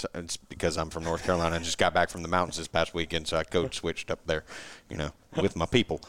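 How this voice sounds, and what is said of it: Southern rural American accent. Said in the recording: “Why do I sound like a redneck”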